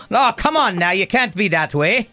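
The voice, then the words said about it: Poor put-on Irish accent. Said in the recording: “that's a terrible Irish accent”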